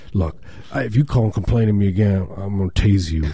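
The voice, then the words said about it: Yokel-like cop voice. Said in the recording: “That's my cop impersonation... That's how they all sound... Like yokels.”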